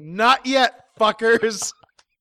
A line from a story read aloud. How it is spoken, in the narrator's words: belches loudly, and says